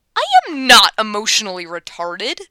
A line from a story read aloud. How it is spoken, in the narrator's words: Clyde snaps